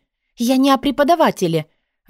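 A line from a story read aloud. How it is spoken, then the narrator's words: Impatient exclamation. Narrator (Russian): в нетерпении воскликнула я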